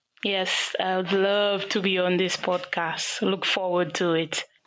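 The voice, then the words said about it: Afro-Caribbean St. Lucian accent. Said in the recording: “as you can hear from the accent, I'm Afro-Caribbean, so specifically St. Lucia”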